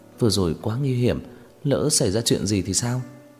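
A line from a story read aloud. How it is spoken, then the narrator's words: Frightened trembling voice. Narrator (Vietnamese): sắc mặt cô tái nhợt, giọng nói nghe lại càng run rẩy hơn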